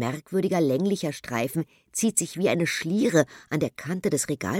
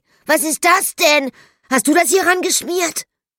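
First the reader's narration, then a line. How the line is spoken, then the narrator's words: Calling out. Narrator (German): ruft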